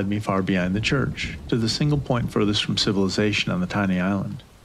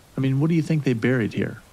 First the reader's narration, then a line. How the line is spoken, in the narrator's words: he asked